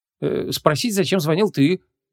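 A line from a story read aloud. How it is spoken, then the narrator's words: Confused answer. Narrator (Russian): растерянно ответила Ванесса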